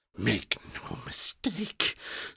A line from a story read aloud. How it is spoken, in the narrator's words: she whispered